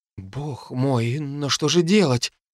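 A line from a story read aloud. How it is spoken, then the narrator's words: Breathless, despairing. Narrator (Russian): выдохнула Терри, закусив губу от отчаяния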